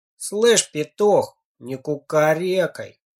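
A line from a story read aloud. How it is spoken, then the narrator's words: Lazy, dismissive. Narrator (Russian): Лениво отмахнулся от него Женька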